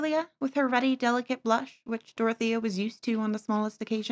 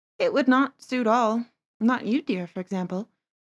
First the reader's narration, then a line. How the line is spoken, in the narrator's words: said Dorothea quietly